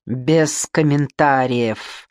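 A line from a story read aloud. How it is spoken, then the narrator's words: Hiss through teeth. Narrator (Russian): наконец прошипел я сквозь зубы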